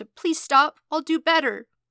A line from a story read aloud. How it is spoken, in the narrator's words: whimpering